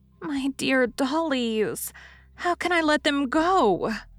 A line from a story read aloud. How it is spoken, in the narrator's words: moaned Daisy, with a face full of maternal woe